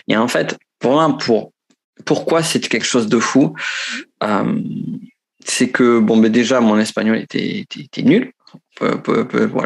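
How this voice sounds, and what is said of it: Southern French Pyrenees accent. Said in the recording (French): “ça sent à mon accent. Certains pensent accent de Marseille ou de Toulouse, non, c'est accent de, du, du, du, fin fond des Pyrénées”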